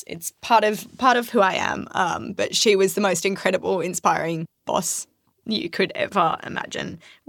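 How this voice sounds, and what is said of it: Emotional, tearful voice. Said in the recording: “I'll start crying ... This is the moment where I probably burst into tears, and you can hear the emotion in my voice.”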